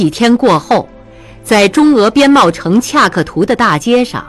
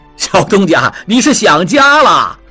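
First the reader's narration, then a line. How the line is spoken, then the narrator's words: Crowd laughing in unison. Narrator (Chinese): 众人大笑，一起说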